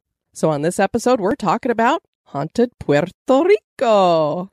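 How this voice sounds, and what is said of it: Good put-on Puerto Rican accent. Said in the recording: “Very good with your accent there.”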